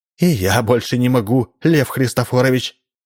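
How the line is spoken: Exclaiming. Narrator (Russian): тоже воскликнула она

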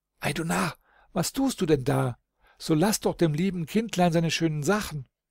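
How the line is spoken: Young man calling out. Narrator (German): der junge Holdrio ... rief

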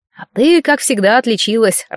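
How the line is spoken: Laughing. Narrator (Russian): рассмеялся Кирилл

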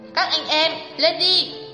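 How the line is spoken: Loud shout. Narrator (Vietnamese): hét lớn

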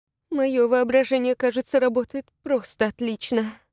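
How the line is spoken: Moaning. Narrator (Russian): простонала Вильяму

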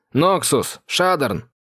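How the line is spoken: Shouted. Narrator (Russian): крикнул я

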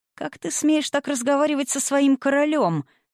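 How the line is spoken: Shrill squeal. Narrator (Russian): взвизгнул Гивлий

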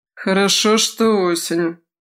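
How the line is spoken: Grim summary. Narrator (Russian): мрачно резюмировал Крет

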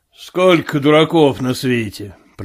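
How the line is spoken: Grumbled. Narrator (Russian): проворчал он

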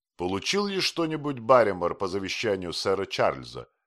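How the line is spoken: Plain. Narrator (Russian): спросил Холмс

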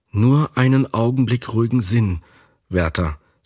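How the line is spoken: Plain. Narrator (German): sagte sie

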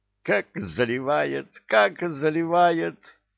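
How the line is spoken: Imp giggling into ear. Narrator (Russian): хихикнул на ухо Зыргу бесенок

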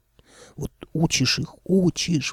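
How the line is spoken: Old man sighing. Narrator (Russian): вздохнул дед

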